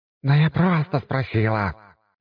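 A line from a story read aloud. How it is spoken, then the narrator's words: Snarling. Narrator (Russian): рыкнула на нее сестра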